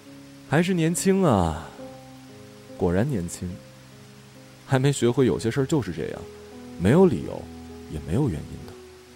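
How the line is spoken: Sighing. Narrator (Chinese): 艾童叹了口气

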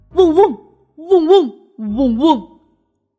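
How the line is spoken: Dog barking from within. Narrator (Chinese): 大狗在它肚子里面叫着

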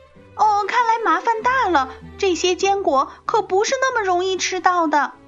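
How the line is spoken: Loud shout. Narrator (Chinese): 多罗西大声的叫着

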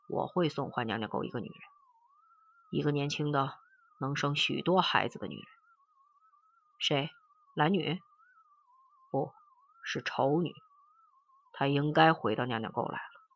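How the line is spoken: Cold, expressionless. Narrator (Chinese): 陈诚面无表情的冷冷的说

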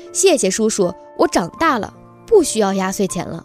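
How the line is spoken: Loud, firm. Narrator (Chinese): 大声说

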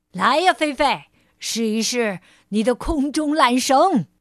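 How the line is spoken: Calling out. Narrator (Chinese): 派老头冲小猫喊道

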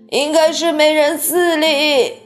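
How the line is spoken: Old woman yelling loudly. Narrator (Chinese): 约瑟芬奶奶哇哇大叫

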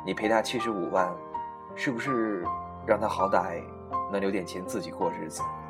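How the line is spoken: Plain. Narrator (Chinese): 管春半天后说

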